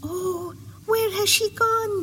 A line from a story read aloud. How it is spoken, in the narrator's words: they cried